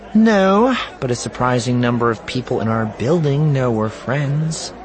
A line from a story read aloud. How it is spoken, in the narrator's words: Juahir said dryly